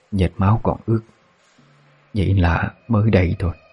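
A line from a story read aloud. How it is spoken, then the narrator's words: Old woman whispering. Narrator (Vietnamese): Bà thì thầm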